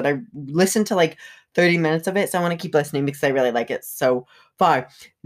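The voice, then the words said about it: Phlegmy, congested voice. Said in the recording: “my voice is very like phlegm. Oh, disgusting, phlegmy”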